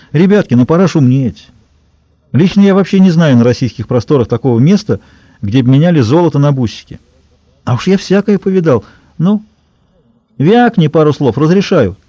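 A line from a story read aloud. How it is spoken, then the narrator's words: Cheerful good-natured chuckle. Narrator (Russian): Он усмехнулся без издевки, весело, широко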